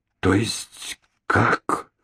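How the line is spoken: Quiet, doubtful. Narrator (Russian): тихо и недоверчиво проговорила она

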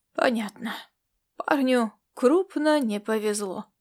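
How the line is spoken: Sighing. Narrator (Russian): вздохнул борц

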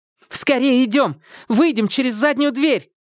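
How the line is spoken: Shouted. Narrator (Russian): прокричала Го Сяо Фэнь

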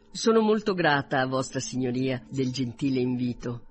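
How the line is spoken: Plain. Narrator (Italian): rispose Elizabeth

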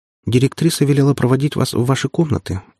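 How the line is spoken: Timid. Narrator (Russian): робко произнесла она

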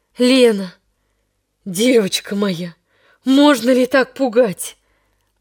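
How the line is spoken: Agitated voice. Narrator (Russian): произнес взволнованным голосом дядя

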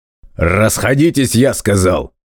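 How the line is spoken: Barking order. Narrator (Russian): Снова рявкнул воспитатель

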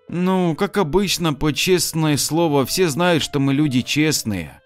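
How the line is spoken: Sighing. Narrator (Russian): вздохнула она

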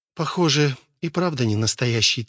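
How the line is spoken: Quiet. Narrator (Russian): тихо сказала она

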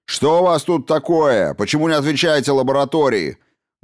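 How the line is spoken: Barking. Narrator (Russian): гаркнул Грей

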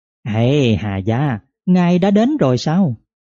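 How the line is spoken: Smiling, eager greeting. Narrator (Vietnamese): Quy Nô vội mỉm cười, nói

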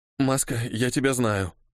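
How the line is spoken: Quiet. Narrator (Russian): сказал тихонько

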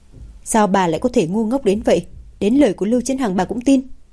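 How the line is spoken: Shaking with anger. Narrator (Vietnamese): Hạ Thời Yến tức giận đến phát run

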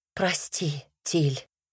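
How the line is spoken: Soundless whisper. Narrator (Russian): прошептала беззвучно

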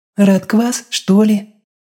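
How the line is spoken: Uncertain tentative godmother. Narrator (Russian): неуверенно предположила крестная

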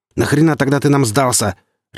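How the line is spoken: Barked. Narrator (Russian): рявкнул Гриф

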